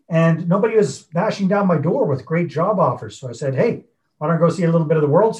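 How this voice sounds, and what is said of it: Canadian English accent. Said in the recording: “you can probably hear by my accent out and about, I'm actually Canadian”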